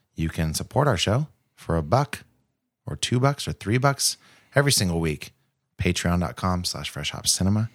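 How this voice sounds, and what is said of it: Speaking softly, quiet voice. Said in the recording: “Why are you talking so soft?”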